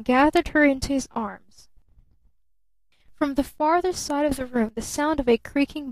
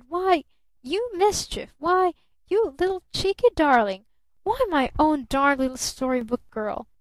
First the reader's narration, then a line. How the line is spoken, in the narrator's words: he stammered